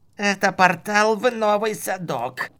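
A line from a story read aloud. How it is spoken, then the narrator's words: Creaky, through gritted teeth. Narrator (Russian): проскрипел маг сквозь стиснутые усилием зубы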